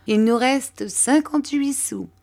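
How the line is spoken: Laughing. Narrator (French): dit Mathia en riant

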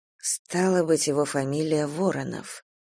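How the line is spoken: Muttering. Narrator (Russian): пробормотала Надежда

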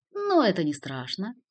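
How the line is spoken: Relieved laugh. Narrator (Russian): Артью, ожидавший чего-нибудь похуже, облегченно засмеялся

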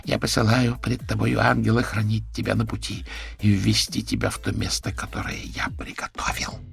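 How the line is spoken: Whisper, female. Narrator (Russian): прошептала женщина

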